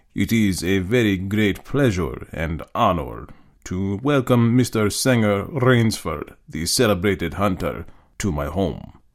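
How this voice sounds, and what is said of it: Cultivated voice, slight precise accent. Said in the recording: “In a cultivated voice marked by a slight accent that gave it added precision and deliberateness”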